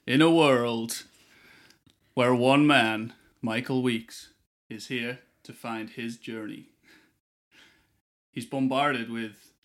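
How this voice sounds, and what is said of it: Put-on American movie-trailer voice. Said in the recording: “I don't know why I've gone American ... The American accent as well ... I don't know why I went American.”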